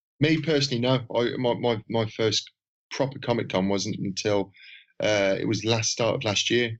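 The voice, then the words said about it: Birmingham accent. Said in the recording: “I live near Birmingham, and as you could probably tell with my awful accent”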